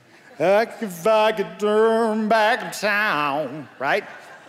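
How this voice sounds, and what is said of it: Sung imitation of a pop singer. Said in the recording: “my best Cher impersonation.”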